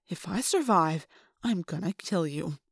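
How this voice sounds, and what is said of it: Weirdly calm delivery. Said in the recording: “in a weirdly calm voice”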